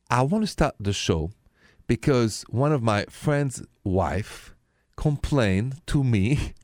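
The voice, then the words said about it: French accent. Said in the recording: “my accent is French, français”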